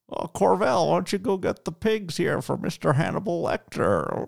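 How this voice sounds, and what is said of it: Creepy drawling film-character impression. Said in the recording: “his little droll, I'm going to try and do my best impression of it”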